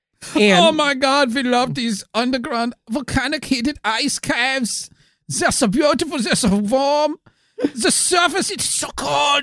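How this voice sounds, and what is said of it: Cartoonish put-on German accent. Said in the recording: “Your your your your your cartoonish portrayal of of a German accent is fun and all”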